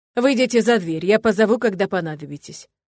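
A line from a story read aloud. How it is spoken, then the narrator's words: Father barking. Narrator (Russian): рявкнул отец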